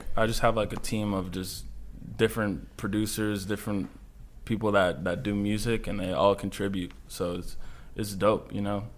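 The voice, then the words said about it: New York accent. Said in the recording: “I can hear it in the accent. He said New York.”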